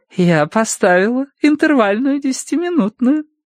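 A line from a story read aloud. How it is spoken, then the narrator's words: Cooed. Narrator (Russian): проворковал Уордер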